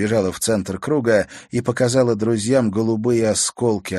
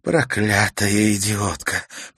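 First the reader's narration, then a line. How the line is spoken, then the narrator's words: Hiss. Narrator (Russian): прошипела она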